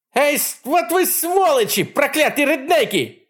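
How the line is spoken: Shouting. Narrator (Russian): кричала она

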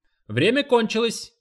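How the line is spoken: Coach shouting. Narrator (Russian): крикнул тренер

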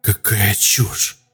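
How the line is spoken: Quiet hiss. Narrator (Russian): тихо прошипела

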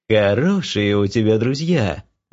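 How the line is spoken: Goddess's ringing laugh. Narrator (Russian): звонко засмеялась богиня

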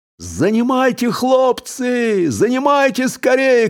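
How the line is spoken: Shouting. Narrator (Russian): кричал

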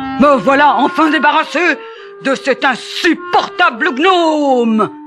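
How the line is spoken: Snarling roar. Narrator (French): rugit-il en montrant les dents

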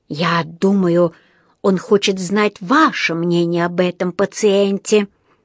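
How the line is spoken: Hissed into ear. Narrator (Russian): прошипел Паддингтону на ухо один из врачей

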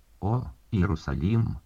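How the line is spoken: Exclaimed. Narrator (Russian): как то воскликнул Христос

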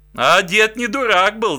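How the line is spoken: Laughing. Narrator (Russian): засмеялся волк

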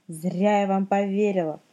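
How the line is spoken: Plain. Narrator (Russian): сказала тетя Наташа

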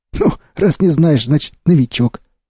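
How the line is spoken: Smirking. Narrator (Russian): усмехнулся Сиплый

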